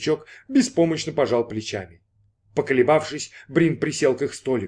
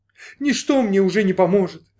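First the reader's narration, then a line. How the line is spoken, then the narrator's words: Sobbing girl. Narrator (Russian): зарыдала девушка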